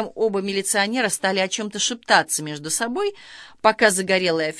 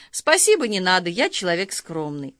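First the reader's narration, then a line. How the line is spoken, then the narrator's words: Man speaking while laughing. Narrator (Russian): Загорелый милиционер сказал, смеясь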